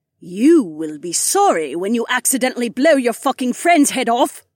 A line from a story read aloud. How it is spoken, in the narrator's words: Kat snarled